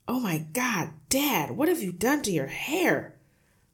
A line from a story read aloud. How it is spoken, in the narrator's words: the son shouted